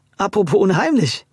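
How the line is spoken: Laughing. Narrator (German): lachte Luis

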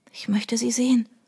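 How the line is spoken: Whispered. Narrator (German): flüsterte Trudy

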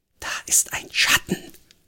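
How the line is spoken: Breathy whisper. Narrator (German): hauchte

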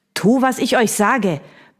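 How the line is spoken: Villain barking orders. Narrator (German): bellte der Schurke

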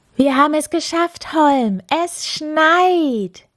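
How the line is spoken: Little snowman calling proudly. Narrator (German): rief der kleine Schneemann stolz

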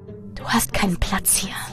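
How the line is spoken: Whispered. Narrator (German): flüsterte eine der Gestalten

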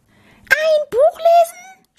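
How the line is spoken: Shouted. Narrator (German): schrie Maurice

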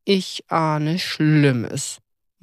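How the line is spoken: Muttering. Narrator (German): murmelte Toni

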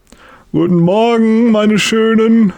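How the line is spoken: Loud call. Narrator (German): ruft er laut

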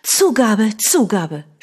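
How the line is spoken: Shouting. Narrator (German): schrie

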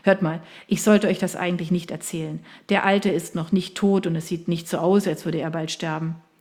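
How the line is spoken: Laughing. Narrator (German): Henry lachte

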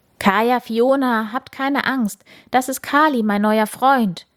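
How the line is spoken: Enthusiastic farmer calling. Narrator (German): ruft Bauer Pop ihnen begeistert zu

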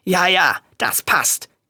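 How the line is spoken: Growl. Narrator (German): knurrte Reinaldo

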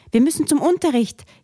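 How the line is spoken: Panicked gasping. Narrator (German): japste Robert, der riesengroße Angst vorm Zu-spät-Kommen hat

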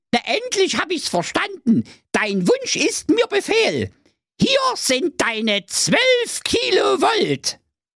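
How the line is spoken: Fairy calling out. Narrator (German): Da rief die Fee

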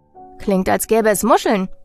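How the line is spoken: Called after. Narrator (German): rief ich ihm hinterher

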